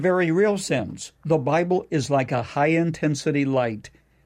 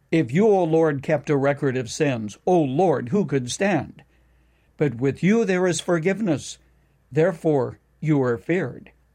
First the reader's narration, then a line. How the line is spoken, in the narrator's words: David cried out